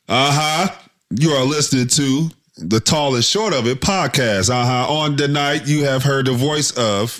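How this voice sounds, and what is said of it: Preacher-style churchy voice. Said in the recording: “in my churchy voice.”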